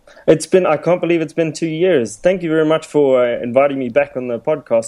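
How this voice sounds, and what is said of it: South African accent. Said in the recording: “I figured we need to have the South African accent on the show.”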